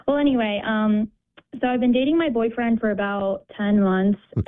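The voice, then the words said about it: Nervous, shaky voice. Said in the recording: “I'm a little nervous right now ... my voice is shaking.”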